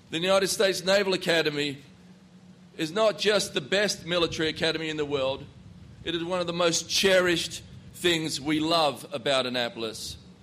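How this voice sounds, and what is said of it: Australian accent. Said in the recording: “As you can tell from my accent, I'm not from this place. It's a little bit south of here. ... growing up in Perth”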